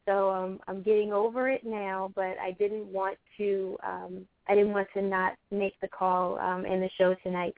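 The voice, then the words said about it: Unwell-sounding voice. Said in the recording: “I'm going to apologize for my voice. ... I think I have the flu.”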